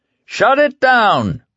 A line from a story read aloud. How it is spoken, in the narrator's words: a heavy-set man with sergeant's stripes on his sleeves yelled